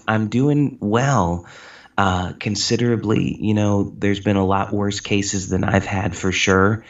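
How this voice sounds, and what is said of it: Weak, fatigued voice. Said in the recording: “my voice is pretty weak because, yes, I have had COVID... the vocal fatigue”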